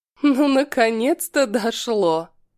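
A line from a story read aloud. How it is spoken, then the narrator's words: Short laugh. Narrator (Russian): Хохотнула Хаят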